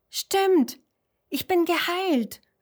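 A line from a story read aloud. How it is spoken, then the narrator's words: Called out. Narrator (German): ruft Huberto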